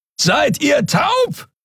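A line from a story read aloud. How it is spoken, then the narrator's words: Roaring from afar. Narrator (German): brüllte Kero von der anderen Seite des Portals über die Kluft zwischen zwei Planeten hinweg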